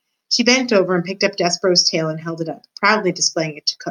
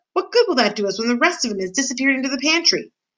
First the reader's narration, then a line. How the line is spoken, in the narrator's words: shouted Cook